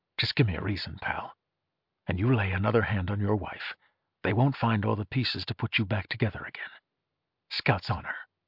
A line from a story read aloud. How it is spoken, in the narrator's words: Into his ear, Archer breathed